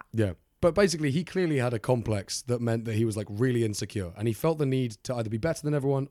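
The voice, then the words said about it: Minnesotan accent. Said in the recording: “Minnesotan accent”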